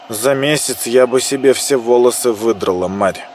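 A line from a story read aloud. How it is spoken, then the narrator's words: Grumbling mutter. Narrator (Russian): буркнула Мила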